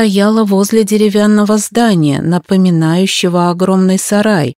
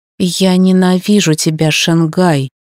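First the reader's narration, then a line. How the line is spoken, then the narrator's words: Dull, muffled. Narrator (Russian): глухо сказала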